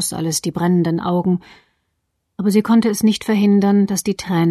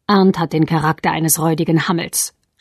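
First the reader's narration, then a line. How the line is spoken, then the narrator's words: Cold statement. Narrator (German): stellte Marian kalt fest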